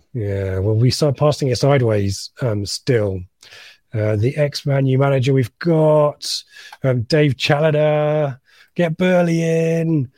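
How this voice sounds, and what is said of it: Adrian Chiles impression, West Midlands accent. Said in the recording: “It was an Adrian Charles impression there. ... It was someone from the West Midlands. ... It was an offensive West Midlands accent.”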